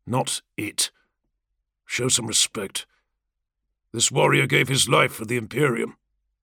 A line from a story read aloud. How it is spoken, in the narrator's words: Zephon murmured